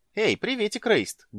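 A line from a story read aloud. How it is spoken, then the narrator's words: Cheerful shout. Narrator (Russian): бодро крикнула она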